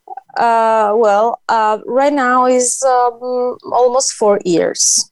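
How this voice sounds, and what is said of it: Italian accent. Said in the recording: “you have an incredible uh, accent ... I'm from Italy.”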